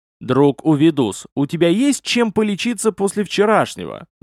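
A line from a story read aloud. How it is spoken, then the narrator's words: Yelling. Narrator (Russian): заорал он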